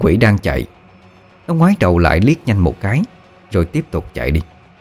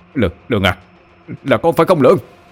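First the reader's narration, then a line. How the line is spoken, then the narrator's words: Shouting in recognition. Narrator (Vietnamese): Ông bối lúc bấy giờ như đã xác định mà hét lên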